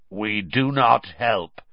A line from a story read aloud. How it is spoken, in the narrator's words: he said, in a harsh, croaky voice